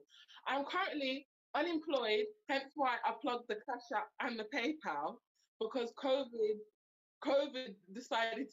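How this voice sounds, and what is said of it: Slight Birmingham accent. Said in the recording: “I'm from Birmingham. You might hear the slight accent. Um, but I'm from Brum.”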